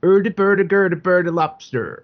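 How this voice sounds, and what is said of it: Bad Swedish Chef impression. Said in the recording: “she does the worst Swedish Chef impression”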